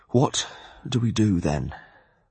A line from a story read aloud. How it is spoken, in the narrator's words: I asked thickly